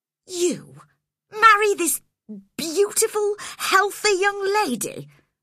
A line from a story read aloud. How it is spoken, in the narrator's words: I cried